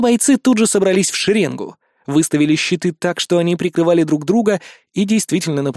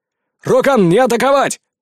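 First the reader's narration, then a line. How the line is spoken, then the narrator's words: Yell. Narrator (Russian): заорал я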